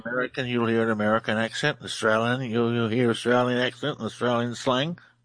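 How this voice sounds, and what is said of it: Australian accent. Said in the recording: “Australian researcher. Love the accent. Absolutely. ... You have a great one.”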